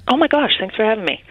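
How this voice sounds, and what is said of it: Whispering. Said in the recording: “I'm whispering because I'm in the studio”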